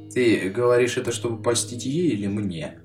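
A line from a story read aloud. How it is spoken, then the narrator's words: Gloomy. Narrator (Russian): мрачно поинтересовался я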